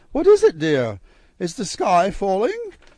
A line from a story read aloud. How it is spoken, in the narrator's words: laughed